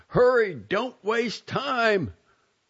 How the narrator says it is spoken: Fukai, Father LaSalle called out

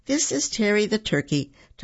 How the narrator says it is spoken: Tommy said, stifling a laugh

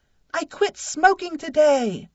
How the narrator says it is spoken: I cried

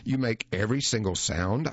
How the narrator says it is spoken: I asked Costanzo

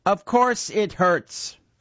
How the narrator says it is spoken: the head bellowed

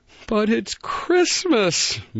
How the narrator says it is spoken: moaned Barrington

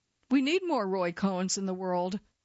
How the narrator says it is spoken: Briggs frequently said

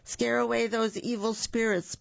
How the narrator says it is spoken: Poppy Uncle shouts

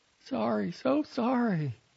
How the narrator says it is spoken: shrinking from his angry face, pleading

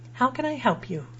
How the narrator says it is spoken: asked

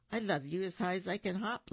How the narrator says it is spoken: laughed Little Nut Brown Hare

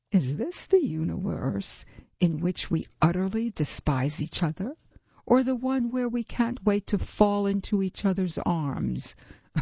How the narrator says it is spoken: Vogelhers laughed

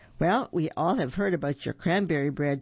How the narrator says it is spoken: chuckled Mr

